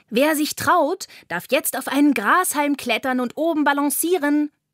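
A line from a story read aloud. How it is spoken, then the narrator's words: Calling out. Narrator (German): ruft Carla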